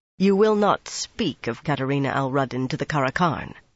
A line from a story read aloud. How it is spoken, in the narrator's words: she said